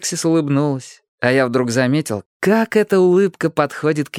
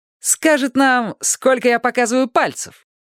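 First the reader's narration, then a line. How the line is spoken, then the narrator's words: Giggling. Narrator (Russian): она хихикнула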